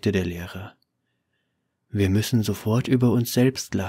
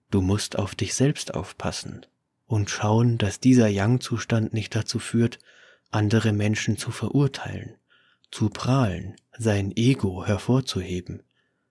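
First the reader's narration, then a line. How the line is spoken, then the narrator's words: Calm explanation. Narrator (German): erklärte der Weise ruhig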